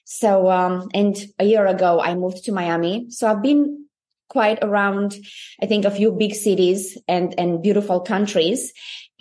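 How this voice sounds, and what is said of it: Romanian accent. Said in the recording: “You see that I have an accent, so I'm Romanian.”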